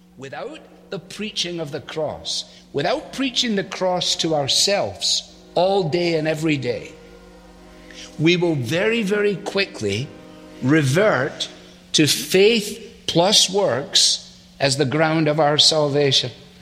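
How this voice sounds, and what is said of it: Scottish accent, Alistair Begg. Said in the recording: “the pastor is Alistair Begg ... he's Scottish. He's got a good accent.”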